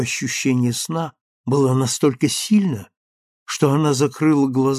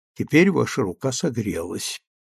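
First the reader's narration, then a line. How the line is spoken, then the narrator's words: Tender, gentle voice. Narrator (Russian): нежно сказал он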